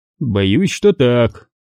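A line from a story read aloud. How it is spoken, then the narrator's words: Grim. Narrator (Russian): мрачно ответил Куай-Гон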